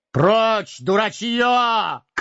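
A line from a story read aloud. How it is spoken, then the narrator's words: Shouted. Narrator (Russian): крикнул в ответ Гэндальф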